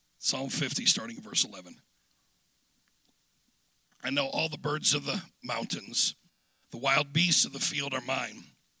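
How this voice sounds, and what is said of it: Hoarse, strained voice. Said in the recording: “pardon my voice ... allergies ... my voice is a little trashed”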